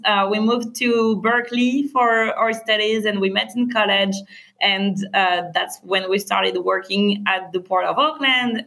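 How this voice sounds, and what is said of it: French accent. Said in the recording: “judging by your accents ... you sound very French.”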